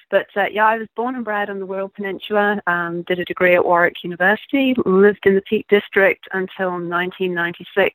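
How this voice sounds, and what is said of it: British accent, slightly Americanized. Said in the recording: “my accent is sounding a bit of a mongrel. To American ears, I sound British. ... Probably to you, I still sound somewhat Americanized.”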